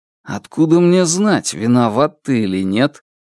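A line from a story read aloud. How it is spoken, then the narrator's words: Calm reply. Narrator (Russian): спокойно ответил Хан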